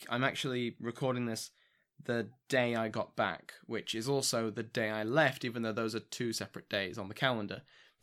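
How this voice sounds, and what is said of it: Tired voice, going hoarse. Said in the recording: “exhausted. You can probably hear it in my voice. My voice is going”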